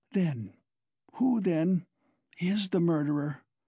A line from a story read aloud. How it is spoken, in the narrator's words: he asked in a breathless voice, unable to restrain himself